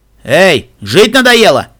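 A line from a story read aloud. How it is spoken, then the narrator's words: Barking. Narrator (Russian): рявкнул кто-то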